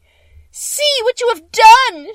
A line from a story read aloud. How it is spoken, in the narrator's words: she screamed